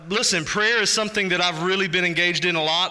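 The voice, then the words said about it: Texas accent. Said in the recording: “the big goofy guy with the Texas accent”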